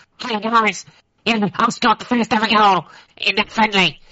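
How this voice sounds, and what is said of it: Imitates another person's voice. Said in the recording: “my Thomas Green impression... it was very good.”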